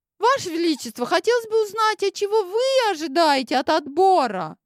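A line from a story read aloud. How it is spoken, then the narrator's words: Very high-pitched question. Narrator (Russian): Очень высоким голосом спросила я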